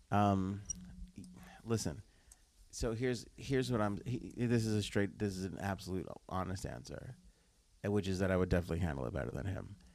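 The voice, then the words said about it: Whispering. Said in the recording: “I'm whispering through this show right now”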